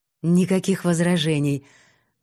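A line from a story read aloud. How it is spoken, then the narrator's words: Forced smile. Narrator (Russian): выдавил улыбку Фисин папенька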